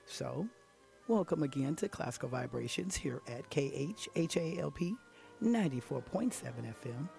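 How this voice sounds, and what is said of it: Hoarse, raspy voice. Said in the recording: “I'm a bit hoarse sometimes, or I should say the throat is a bit raspy”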